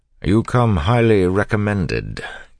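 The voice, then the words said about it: Haughty noble accent. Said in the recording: “mimicking the haughty accent of a nobleman”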